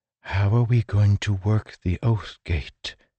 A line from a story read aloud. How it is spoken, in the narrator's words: She whispered